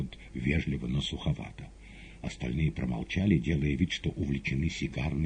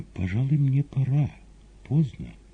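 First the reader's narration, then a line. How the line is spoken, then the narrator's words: Timid. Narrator (Russian): Маргарита робко сказала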